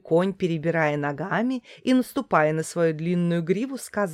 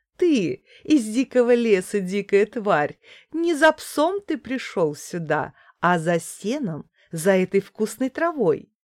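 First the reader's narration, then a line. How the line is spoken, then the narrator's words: Woman laughing. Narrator (Russian): женщина засмеялась и сказала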